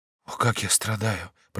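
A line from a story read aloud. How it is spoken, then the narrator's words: Weak whisper. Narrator (Russian): прошептал он слабым голосом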